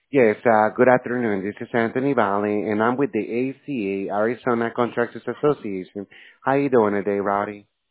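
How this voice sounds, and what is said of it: Talking very fast. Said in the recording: “Why are you talking so fast?”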